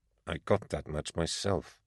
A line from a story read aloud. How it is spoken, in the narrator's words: I muttered